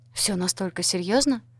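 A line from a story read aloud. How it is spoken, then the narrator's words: Trembling voice. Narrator (Russian): спросила дрогнувшим голосом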